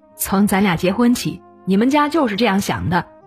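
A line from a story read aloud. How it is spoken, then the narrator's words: Furious husband. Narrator (Chinese): 丈夫怒火中烧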